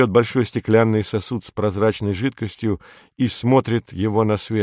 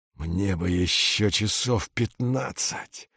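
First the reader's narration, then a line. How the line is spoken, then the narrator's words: Mumbling. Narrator (Russian): бормочет Витька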